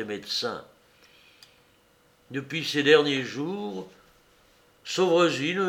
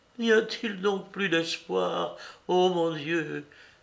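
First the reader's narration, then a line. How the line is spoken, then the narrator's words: Heartrending cry. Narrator (French): s'écria-t-elle d'une voix déchirante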